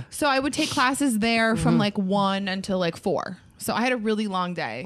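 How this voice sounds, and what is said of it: East Coast American accent. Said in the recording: “heard the East Coast right there. ... The accent. ... That was East Coast.”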